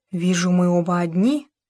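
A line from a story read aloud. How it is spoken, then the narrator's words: Near whisper. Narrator (Russian): Даяна почти прошептала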